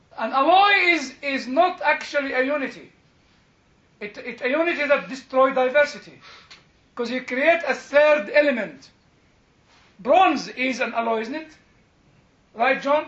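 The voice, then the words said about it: Heavily accented non-native English. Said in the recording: “my horrible English accent”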